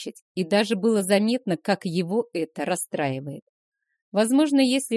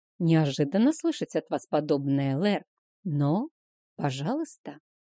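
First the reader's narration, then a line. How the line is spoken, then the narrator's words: Answered quietly. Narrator (Russian): также тихо ответила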